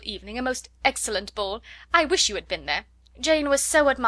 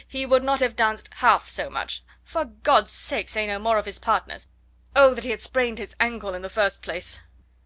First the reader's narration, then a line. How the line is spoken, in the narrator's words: cried her husband impatiently